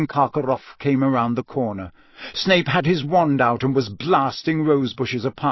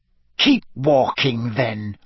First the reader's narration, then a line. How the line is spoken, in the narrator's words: Snape snarled